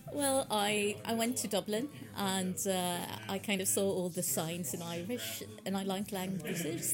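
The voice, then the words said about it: Ulster Irish accent. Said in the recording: “I actually thought that you were from somewhere in Ulster when I heard you speaking first there ... that's where the Ulster accent comes from. I knew I recognised it.”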